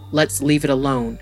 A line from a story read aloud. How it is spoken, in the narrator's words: he said